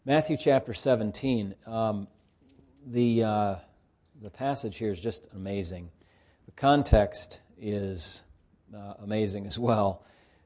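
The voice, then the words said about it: Tired, unsteady voice. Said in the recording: “a little bit tired after a long day ... my voice is doing funny things to me here”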